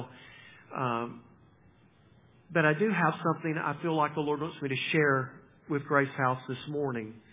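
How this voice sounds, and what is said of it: Strained, unwell-sounding voice. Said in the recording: “apologize for my voice. I've had some battles with that the last few days”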